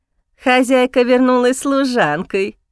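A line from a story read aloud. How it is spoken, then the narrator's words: Snide drawl. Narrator (Russian): ехидно тянет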